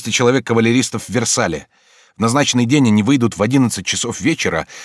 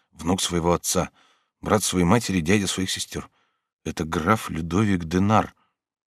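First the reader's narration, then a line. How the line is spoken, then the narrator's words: Low murmuring voice. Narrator (Russian): Басир вполголоса говорил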